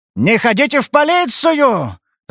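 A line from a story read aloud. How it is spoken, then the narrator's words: Yelled in rage. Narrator (Russian): заорал он в ярости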